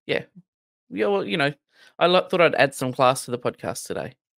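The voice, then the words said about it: Non-American English accent. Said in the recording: “that's why you're here, is for that accent ... I spent the whole week with that accent ... they're all either from Australia, New Zealand, and then there's a handful from the UK”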